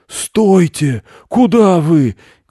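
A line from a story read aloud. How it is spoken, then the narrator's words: Shouting. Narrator (Russian): кричал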